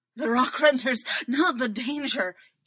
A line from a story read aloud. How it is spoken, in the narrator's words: he pants